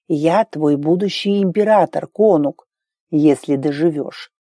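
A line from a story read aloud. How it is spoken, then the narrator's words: Hissing. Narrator (Russian): зашипел Арн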